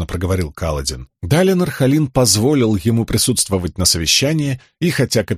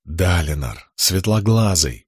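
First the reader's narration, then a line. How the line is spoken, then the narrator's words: Whisper. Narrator (Russian): прошептала часть его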